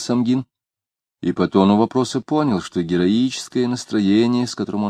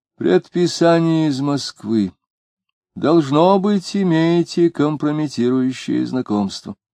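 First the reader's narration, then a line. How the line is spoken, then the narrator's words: Warm voice. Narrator (Russian): сказал теплым голосом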